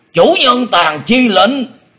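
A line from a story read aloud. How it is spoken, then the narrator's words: Thunderous shout. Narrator (Vietnamese): Đột quát chấn động cả rừng cây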